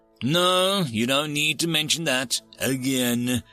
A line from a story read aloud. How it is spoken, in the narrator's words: Rolls Away admitted with a little groan